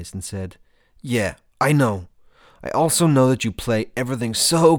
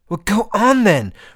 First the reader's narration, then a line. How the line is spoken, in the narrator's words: Roz shouted